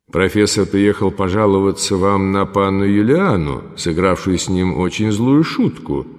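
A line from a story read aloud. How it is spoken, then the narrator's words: Plain. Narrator (Russian): сказал граф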